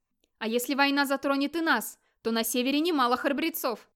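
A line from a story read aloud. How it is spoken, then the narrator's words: Shout. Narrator (Russian): крикнул Скьёльд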